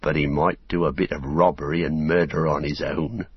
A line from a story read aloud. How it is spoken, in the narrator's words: growled Sam